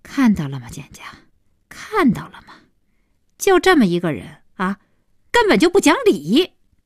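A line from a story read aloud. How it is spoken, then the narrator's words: Bitter wry laugh. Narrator (Chinese): 小希对简家苦笑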